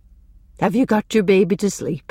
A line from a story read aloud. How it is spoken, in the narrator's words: she asked kindly